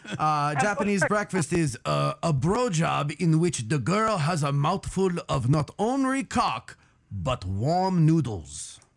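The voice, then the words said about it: Put-on Japanese accent. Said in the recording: “I will do it in my best Japanese accent”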